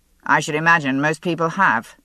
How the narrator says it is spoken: he said coldly

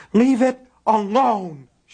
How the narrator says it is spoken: she screamed

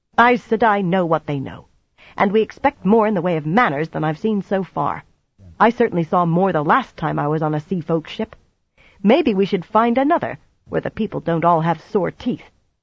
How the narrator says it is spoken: Nynaeve had been working on a scowl, and now she snapped

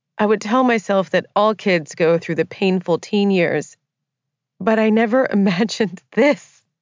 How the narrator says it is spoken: I said with a brittle laugh

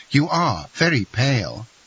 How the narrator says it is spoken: cried Eugenie

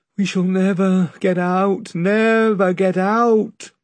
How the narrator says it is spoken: moaned the rowers

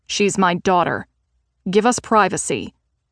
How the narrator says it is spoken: snapped

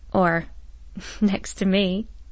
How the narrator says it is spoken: she laughed

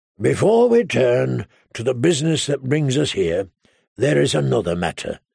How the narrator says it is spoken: he said solemnly

